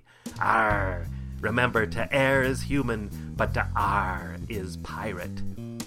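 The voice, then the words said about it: Pirate voice. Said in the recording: “Talk Like a Pirate”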